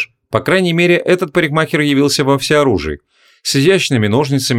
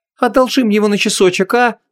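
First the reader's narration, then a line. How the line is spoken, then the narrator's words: Pleading. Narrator (Russian): взмолилась Ванесса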